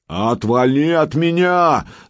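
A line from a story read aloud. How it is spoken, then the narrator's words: Man yelling. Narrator (Russian): заорал мужик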